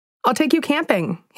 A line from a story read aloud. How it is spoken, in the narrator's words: he exclaimed with glee